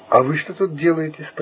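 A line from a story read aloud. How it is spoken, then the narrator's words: Plain. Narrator (Russian): спросила она меня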